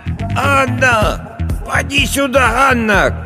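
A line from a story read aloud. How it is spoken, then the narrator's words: Old woman shouting. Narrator (Russian): кричала старая Агафья в окно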